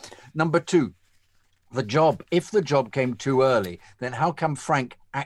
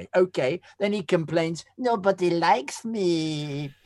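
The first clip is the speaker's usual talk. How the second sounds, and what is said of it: Silly mocking voice. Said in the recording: “Do that bit in silly voice”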